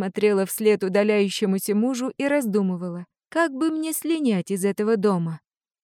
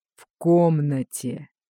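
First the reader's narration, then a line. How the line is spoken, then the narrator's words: Growling. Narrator (Russian): Арт Дэвис прорычал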